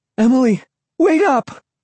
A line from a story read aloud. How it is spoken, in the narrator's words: I called breathlessly